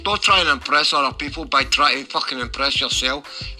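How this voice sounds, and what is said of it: Scottish accent. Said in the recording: “I find that accent attractive. I like my granddad's Scottish and I am Scottish.”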